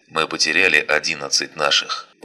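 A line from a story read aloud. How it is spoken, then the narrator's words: Grim radio voice. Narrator (Russian): продолжил голос в передатчике уже более мрачным тоном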